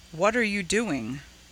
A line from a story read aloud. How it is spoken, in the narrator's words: asked softly